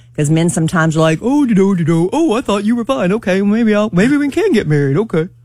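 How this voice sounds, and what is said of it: Imitates a typical man's voice. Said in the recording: “That's my man impersonation.”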